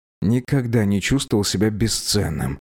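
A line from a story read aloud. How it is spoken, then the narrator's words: Glum. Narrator (Russian): уныло произнес Теппик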